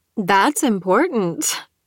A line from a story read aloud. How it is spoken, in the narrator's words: Kristen laughed